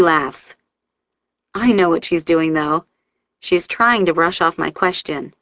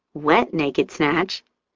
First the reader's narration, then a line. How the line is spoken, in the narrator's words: she says quietly